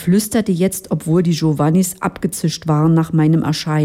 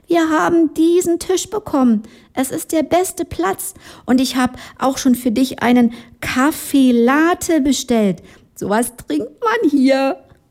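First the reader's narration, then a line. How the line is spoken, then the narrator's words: Called across a hall. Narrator (German): rief durch den ganzen Saal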